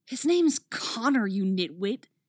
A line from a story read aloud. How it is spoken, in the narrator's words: she hisses